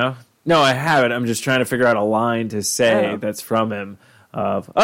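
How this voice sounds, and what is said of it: Usual voice. Nothing is said of it.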